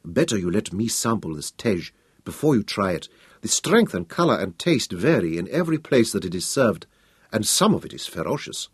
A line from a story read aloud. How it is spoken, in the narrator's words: Tese leaned across to whisper